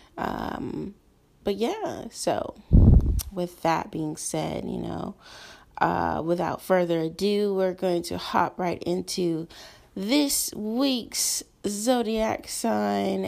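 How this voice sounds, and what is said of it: Slightly hoarse voice. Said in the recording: “I'm a little bit hoarse today”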